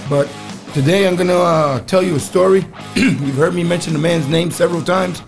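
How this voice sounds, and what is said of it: Strained, impaired speaking voice. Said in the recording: “excuse my voice. I have a real hard time with the trach that they gave me.”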